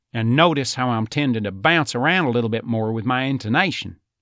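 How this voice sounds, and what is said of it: East Texas twang, high forward placement. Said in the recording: “you can definitely still hear that twang as opposed to that West Texas drawl. So going with that twang, that's more that East Texas sound ... that placement is definitely higher and more forward”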